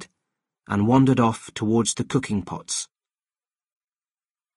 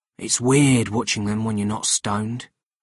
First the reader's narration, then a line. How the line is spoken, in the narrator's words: Kitty whispered to me